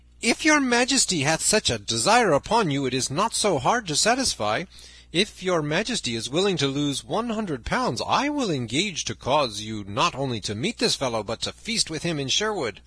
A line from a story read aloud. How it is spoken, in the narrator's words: Then up spoke Sir Hubert of Gingham, laughing